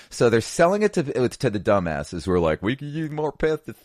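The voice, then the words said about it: Midwest redneck accent. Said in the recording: “Midwest redneck accent. ... It just happens.”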